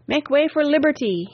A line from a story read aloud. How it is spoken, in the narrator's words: he cried